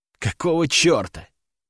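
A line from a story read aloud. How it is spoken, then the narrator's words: Muttered to emptiness. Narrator (Russian): пробормотал я в пустоту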